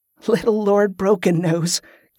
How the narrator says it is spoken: Carola said, too weak to resist the laugh that bubbled out of her

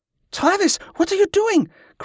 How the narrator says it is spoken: cried a woman's voice

